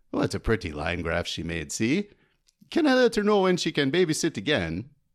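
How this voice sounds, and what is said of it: Put-on accent. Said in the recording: “amazing accent work”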